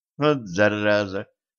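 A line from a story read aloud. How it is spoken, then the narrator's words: Through gritted teeth. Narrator (Russian): процедила Женька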